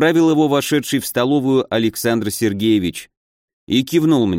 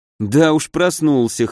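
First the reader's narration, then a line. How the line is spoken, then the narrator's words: Snort. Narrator (Russian): хмыкнул я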